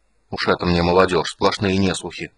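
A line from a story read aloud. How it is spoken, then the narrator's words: Grumbling. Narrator (Russian): пробурчал Физбен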